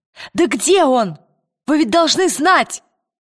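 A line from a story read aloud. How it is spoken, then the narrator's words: Shouted. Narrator (Russian): крикнула Лира шеф-повару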